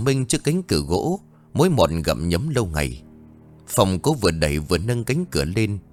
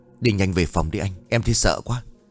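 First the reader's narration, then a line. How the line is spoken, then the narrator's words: Trembling reply. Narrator (Vietnamese): Minh run rẩy đáp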